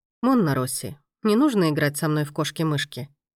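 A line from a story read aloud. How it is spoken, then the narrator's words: Quiet reply after pause. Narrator (Russian): негромко ответил маэстро после некоторой паузы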